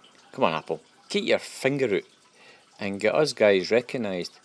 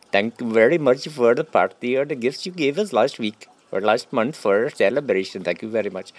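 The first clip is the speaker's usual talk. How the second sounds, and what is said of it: Poor imitation Pakistani accent. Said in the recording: “that's crap Pakistan accent”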